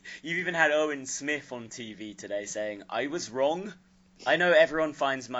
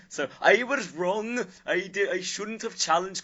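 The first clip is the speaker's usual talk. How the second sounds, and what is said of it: Put-on Welsh accent, strained voice. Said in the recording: “my Welsh accent when I impersonate Owen Smith ... with my throat like this, I really can't do it”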